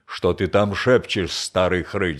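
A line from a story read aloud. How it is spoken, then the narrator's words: Shout. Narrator (Russian): закричал Хлопуша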